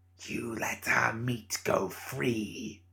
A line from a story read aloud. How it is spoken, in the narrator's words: hissed